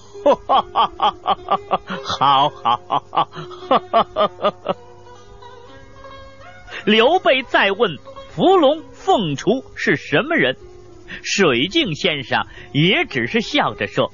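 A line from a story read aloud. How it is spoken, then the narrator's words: Laughing. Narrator (Chinese): 水镜先生又是笑着说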